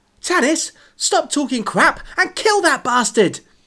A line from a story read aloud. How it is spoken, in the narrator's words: Vic shouted